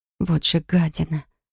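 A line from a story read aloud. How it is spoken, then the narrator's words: Whispered under breath. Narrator (Russian): прошептала я себе под нос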